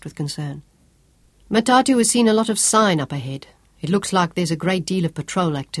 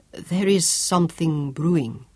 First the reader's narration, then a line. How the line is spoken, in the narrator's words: Alfonso grunted